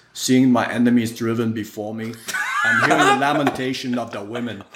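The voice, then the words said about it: Poor Austrian accent. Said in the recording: “my poor Austrian accent”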